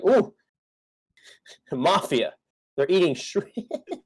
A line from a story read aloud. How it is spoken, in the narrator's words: as a kid, I was like